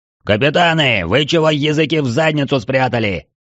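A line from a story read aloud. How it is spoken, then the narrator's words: Sudden bellow filling hall. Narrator (Russian): вдруг гаркнул Трайнул на весь зал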